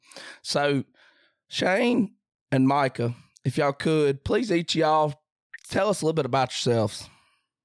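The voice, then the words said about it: Hoarse, strained voice. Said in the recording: “I'm hoarse as can be... I was screaming at them Slick Tree and Walkers, got my voice hoarse”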